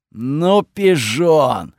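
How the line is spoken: Snort. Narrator (Russian): хмыкнул Готфред

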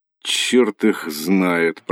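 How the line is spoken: Confused muttering. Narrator (Russian): пробормотал растерянный Антон

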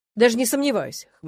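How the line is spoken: Young man's snort. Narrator (Russian): хмыкнул парень

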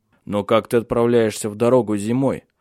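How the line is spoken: Low-voiced question. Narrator (Russian): спросил он низким голосом

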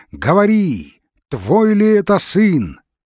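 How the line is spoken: Shouting. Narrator (Russian): кричали

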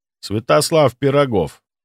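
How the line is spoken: Cold reply. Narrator (Russian): холодно ответил

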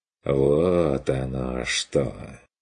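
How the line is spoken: Drawling with a smirk. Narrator (Russian): протянул он с усмешкой

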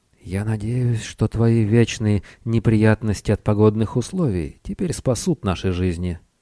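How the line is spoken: Whispered reply. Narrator (Russian): Тесей прошептал в ответ

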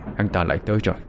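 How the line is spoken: Muttered. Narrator (Vietnamese): Người chồng lẩm bẩm một câu

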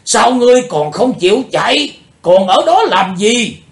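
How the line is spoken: Shout. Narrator (Vietnamese): Tiếng hét

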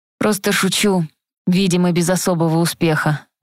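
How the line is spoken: Sighing. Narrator (Russian): вздохнул Элис

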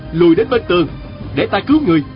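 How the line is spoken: Shouted. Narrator (Vietnamese): Diên Thừa Chí la lên

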